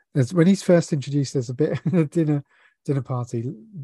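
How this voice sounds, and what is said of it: Usual voice. Nothing is said of it.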